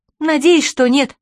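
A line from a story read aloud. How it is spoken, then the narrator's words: Exclamation. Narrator (Russian): воскликнула Чермейн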